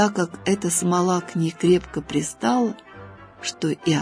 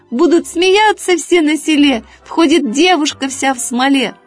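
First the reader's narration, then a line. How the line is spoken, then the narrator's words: Rooster crying out. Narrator (Russian): петушок закричал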